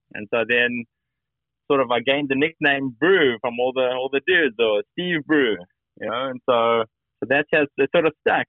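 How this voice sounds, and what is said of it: Prominent South African accent. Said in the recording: “you still have, obviously, the prominent South African accent”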